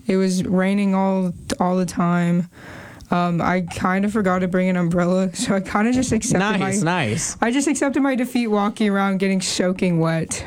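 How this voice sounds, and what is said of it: Strained, hoarse voice. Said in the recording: “my voice is also like this, because my throat”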